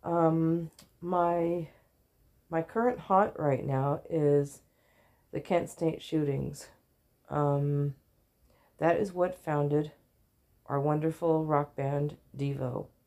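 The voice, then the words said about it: Sick, coughing, strained voice. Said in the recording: “Excuse my sharp noises. This cough is really nasty. There is stuff going down my throat... I haven't quite lost my voice this time.”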